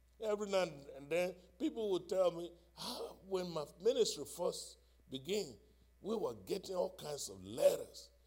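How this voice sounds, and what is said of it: Foreign accent. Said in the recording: “when I have a foreign accent”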